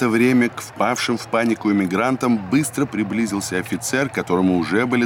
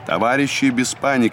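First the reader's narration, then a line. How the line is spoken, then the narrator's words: Commanding officer's voice. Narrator (Russian): командным голосом объявил офицер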